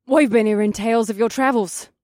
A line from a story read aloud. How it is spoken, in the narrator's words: Toria said as she leaned forward eagerly